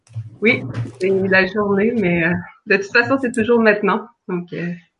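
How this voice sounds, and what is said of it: Québécois French accent. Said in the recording (French): “ton accent nous révèle que tu viens de cette belle contrée qu'est le Québec”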